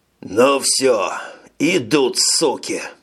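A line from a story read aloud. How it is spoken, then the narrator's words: Hissing. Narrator (Russian): Прошипел полковник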